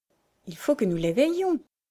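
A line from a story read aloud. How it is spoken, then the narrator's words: Plain. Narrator (French): dit Ben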